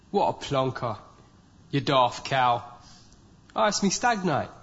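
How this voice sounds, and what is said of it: Cockney East London accent. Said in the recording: “this is what we would refer to as the Cockney accent. It's Eastern London accent.”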